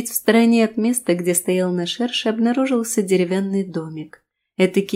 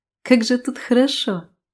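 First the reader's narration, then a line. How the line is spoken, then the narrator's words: Laughing. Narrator (Russian): рассмеялась я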